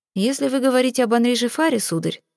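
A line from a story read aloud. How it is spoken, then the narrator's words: Even tone. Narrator (Russian): ровным тоном произнес виконт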